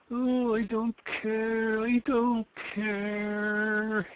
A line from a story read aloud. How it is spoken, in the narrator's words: he moaned